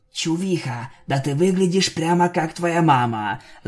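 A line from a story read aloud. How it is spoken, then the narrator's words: Whispered. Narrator (Russian): зашептала Винил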